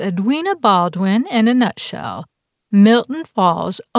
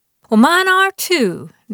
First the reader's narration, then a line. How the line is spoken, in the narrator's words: Dorothy exclaimed